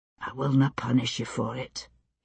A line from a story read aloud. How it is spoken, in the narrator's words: he said, so softly I could barely hear him, close as he was